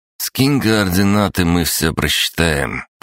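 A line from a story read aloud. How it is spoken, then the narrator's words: Drawling. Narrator (Russian): протянул Андрей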